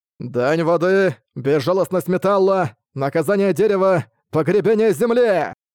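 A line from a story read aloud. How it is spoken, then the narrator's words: Loud shout. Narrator (Russian): громко крикнул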